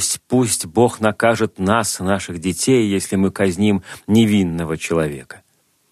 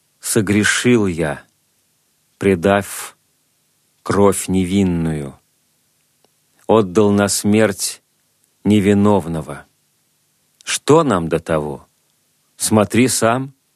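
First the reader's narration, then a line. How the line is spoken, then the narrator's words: Plain. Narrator (Russian): ответили они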